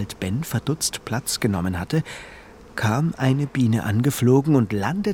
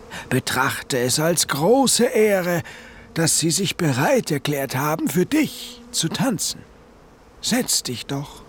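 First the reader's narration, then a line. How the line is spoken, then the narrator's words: Dignified call. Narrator (German): rief sie würdevoll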